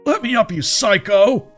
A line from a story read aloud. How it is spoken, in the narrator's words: the person shouted, his face red with fear and pain